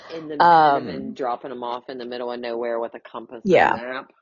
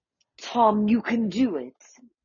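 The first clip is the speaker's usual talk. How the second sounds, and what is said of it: Imitates another person's voice and accent. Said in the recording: “You are good at her accent.”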